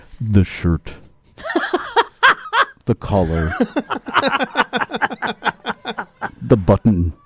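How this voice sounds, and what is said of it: Robert Pinsky impression, slow deliberate reading. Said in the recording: “Here's my Robert Pinsky impression ... The guy is literally the voice of God.”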